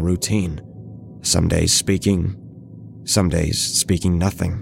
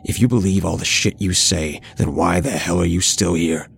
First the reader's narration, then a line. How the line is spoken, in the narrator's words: I asked him in an aggressive tone